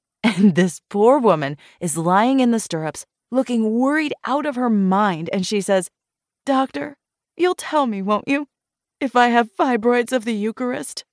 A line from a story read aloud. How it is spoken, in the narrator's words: sputtered so hard that cranberry juice came out of her nose